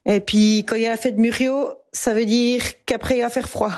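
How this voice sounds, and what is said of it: Swiss French Jura accent. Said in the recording (French): “J'ai grandi dans les Franches-Montagnes, au Sérin même, et c'est dans le Jura. La première fois que j'ai rencontré mon accent, c'est quand on s'en est moqué ... rient de mon accent”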